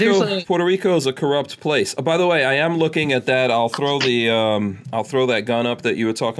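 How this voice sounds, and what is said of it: Usual voice. Nothing is said of it.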